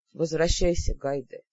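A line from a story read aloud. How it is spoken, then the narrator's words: Tired. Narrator (Russian): устало сказал Ас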